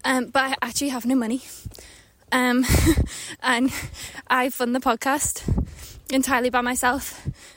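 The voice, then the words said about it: Out of breath speaker. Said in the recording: “I'm out of breath. I'm walking up a hill.”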